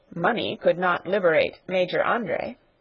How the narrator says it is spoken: said the peddler dryly

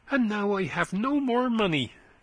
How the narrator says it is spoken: exclaimed Christian excitedly

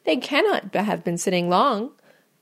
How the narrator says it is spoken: cried Mrs

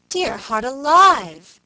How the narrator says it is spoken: exclaimed Mrs

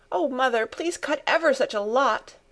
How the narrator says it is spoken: begged Pin, sniffing valiantly

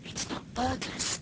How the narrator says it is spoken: Alice whispered

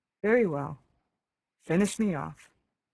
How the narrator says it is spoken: she said in a sad voice

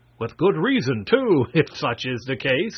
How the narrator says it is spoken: laughed Marvel

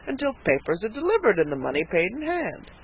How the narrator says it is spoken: said the purchaser with a chuckle

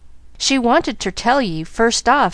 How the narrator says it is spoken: continued Nancy, a little unsteadily

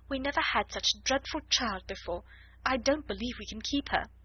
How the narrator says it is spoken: almost whispered Miss Amelia

